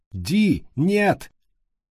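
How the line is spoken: Shout. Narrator (Russian): крикнул Хадди

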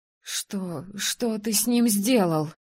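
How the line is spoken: Trembling voice. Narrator (Russian): спросила я дрожащим голосом

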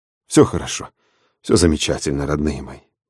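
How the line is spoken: Soothing murmur. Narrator (Russian): бормотал Денис

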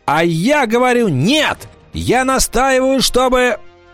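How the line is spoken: Shouting. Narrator (Russian): Паламброн закричал

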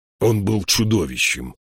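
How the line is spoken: Grumbling. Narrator (Russian): проворчал он

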